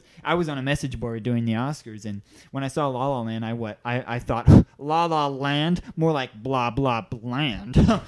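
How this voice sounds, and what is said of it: Nerdy character voice. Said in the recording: “going to do a nerd voice. Because this was his voice.”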